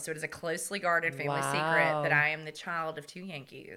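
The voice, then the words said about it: Southern American accent. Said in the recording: “you can clearly hear I have a Southern accent”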